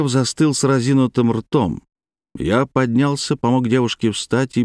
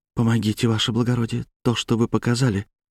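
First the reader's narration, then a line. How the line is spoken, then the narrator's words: Passionate faint whisper. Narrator (Russian): жарко прошептала она, делая полуобморочный вид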